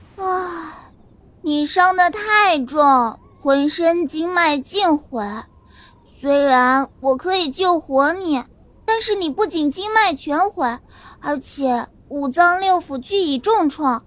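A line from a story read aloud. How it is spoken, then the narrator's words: Sighing woman. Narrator (Chinese): 绿衣女子叹了口气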